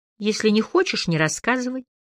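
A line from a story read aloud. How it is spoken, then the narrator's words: Soft added remark. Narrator (Russian): мягко добавила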